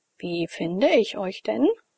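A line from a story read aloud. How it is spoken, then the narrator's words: Uncertain voice. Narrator (German): fragte ich mit unsicherer Stimme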